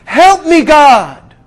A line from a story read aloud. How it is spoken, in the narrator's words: he had no other choice but to scream